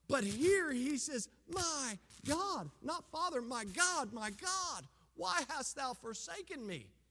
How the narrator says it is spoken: He screams out in terror

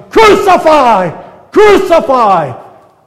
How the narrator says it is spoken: are now shouting

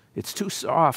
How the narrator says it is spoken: she sighed

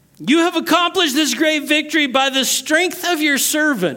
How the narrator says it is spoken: he cries out to the Lord

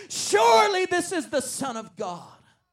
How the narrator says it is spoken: Mary and Joseph exclaimed

